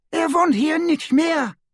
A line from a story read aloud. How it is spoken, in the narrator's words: she cried